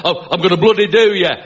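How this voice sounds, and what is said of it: Put-on Northern English accent. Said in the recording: “like Northern accent”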